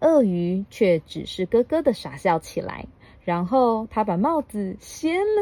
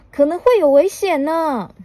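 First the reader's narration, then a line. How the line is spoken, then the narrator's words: Shouted. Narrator (Chinese): 鼹鼠喊道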